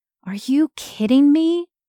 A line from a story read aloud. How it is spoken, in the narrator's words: Sadie groaned